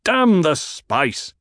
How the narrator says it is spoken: The Duke barked

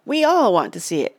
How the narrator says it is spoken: cried a fellow in the crowd

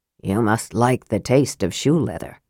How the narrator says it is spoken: Flint remarked, his voice low

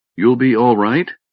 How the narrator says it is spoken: Karaman asked Raistlin uneasily

